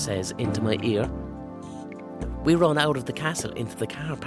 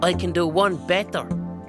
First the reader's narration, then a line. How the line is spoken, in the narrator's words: roar